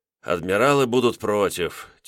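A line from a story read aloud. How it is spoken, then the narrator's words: Heavy sigh. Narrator (Russian): тяжело вздохнул Петр Николаевич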